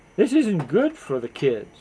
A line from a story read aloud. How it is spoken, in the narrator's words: he grumbles, to no one in particular